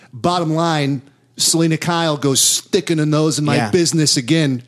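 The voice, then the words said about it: Christopher Walken impression. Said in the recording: “do a Christopher Walken impression ... pretty off ... It's fucking spot on ... I still feel like you're making fun of the impression.”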